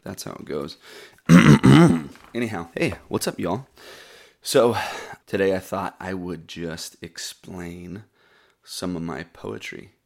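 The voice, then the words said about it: Froggy, groggy morning voice. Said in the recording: “I'm a little groggy this morning... My voice sounds froggy... when you're groggy, your voice sounds froggy”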